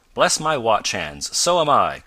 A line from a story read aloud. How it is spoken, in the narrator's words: cried Mr